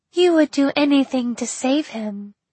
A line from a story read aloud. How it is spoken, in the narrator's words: said Kaylee, her voice thin and as sweet as the bell's ring